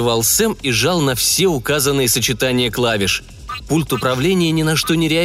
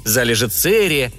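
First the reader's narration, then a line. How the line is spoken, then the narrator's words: Shouting. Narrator (Russian): кричал капитан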